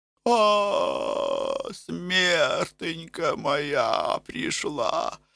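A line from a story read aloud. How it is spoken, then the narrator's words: Despairing moan. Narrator (Russian): стонала мать Енафа в отчаянии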